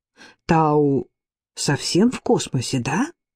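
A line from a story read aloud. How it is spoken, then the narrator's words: Plain. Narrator (Russian): сказала Энни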